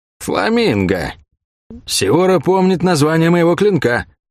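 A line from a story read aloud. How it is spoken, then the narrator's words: Muffled speech. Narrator (Russian): глухо сказали ей из-под шерфа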